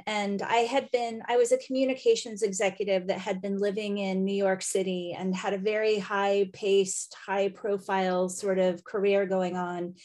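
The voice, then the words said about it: American accent. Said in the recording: “as you can tell from my accent, I'm an American”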